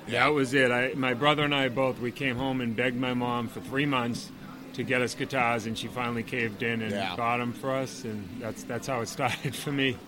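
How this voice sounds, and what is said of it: Boston accent. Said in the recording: “Is that a Boston accent I hear? ... It doesn't come through at all. I can barely hear it.”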